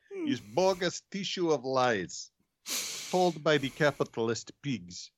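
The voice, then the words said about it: Put-on Russian accent. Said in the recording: “You really need a Russian accent for that.”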